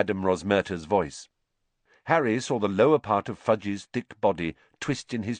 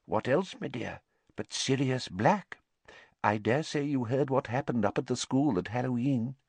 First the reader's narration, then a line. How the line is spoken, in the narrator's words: he said in a quiet voice